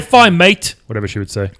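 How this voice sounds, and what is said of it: Put-on Australian accent. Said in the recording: “Australian ... But she's Australian for a second.”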